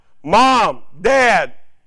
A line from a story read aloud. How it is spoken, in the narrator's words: he called out